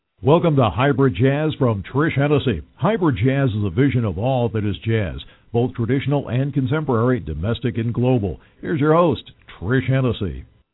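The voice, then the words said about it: Polished radio announcer voice. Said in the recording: “Such a radio voice.”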